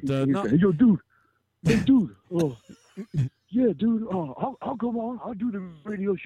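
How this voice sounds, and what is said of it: Imitates another person's voice. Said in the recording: “my best Spellbinder impression”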